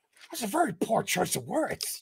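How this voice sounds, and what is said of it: Imitates the Joker's voice. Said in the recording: “that was a pretty good Heath impression there”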